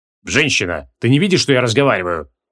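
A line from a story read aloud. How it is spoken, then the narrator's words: Cold. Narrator (Russian): холодно ответил Креол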